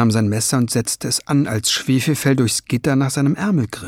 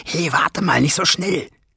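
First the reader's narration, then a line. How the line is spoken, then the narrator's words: Hiss. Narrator (German): zischte sie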